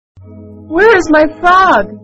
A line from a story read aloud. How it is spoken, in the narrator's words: Lily cried